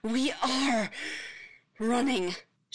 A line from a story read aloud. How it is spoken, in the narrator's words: she pants